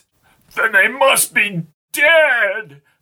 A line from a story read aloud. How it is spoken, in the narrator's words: cried Albie